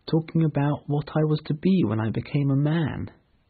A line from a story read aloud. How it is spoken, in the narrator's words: explained in a quiet voice